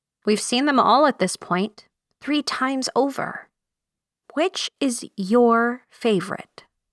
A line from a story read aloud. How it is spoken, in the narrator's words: I asked her